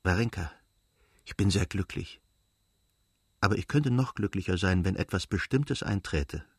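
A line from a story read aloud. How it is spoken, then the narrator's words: Whisper. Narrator (German): flüsterte sie ihr zu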